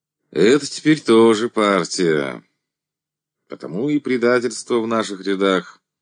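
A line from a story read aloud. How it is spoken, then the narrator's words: Sighing. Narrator (Russian): вздохнул ревкомовец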